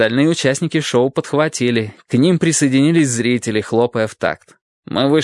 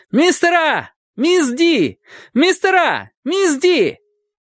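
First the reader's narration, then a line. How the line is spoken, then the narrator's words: Yelling. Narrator (Russian): Майк Кослу заорал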